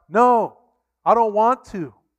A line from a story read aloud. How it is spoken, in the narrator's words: they shout